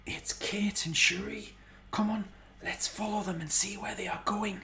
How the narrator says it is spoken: Corn Tractor whispered

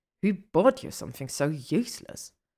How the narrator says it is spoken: She laughs under her breath

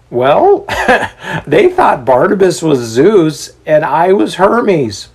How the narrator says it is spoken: Paul says with a laugh

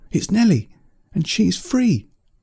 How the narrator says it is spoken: another owl shout

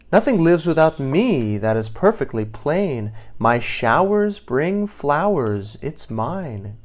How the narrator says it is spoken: cried the rain

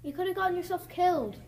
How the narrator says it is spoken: he exclaimed

